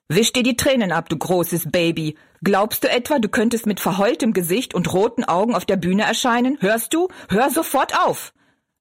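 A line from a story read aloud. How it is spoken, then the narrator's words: Gruff shout. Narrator (German): rief er barsch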